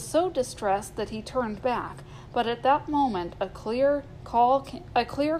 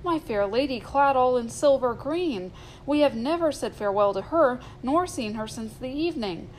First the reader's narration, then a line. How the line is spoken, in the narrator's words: he cried